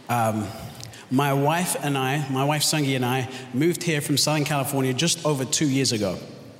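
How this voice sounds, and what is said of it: Mixed London and American accent. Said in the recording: “I was born and raised in London, so that's why I have the confused accent.”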